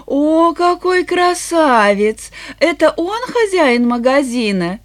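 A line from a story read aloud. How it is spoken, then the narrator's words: Giggling question. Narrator (Russian): Эленор она хихикнула и спросила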